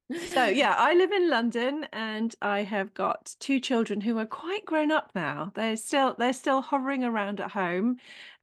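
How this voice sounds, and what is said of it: Posh southern English accent. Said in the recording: “the one with the posh voice ... It's not really posh. It's just because I'm from down south.”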